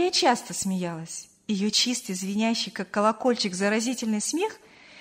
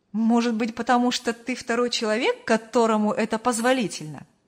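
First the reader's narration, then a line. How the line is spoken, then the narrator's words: Laughing reply. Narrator (Russian): рассмеялся в ответ Артур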